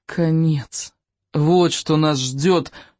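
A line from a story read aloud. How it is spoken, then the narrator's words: Groaning. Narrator (Russian): простонал Икинг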